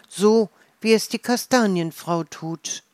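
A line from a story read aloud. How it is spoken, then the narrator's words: Called out. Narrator (German): ruft Mila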